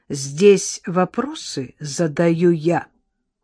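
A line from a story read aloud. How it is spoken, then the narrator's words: Crisp, clipped. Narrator (Russian): отчеканил Гудронов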